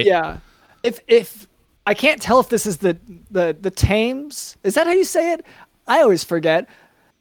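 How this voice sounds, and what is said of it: American accent. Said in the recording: “it's my American accent that gets in the way of how I say Wilshire”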